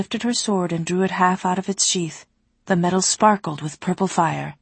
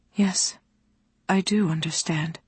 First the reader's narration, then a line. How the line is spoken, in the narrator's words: Alana said quietly